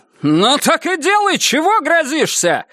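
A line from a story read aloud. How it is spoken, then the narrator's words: Barked reply. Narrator (Russian): рявкнула она в ответ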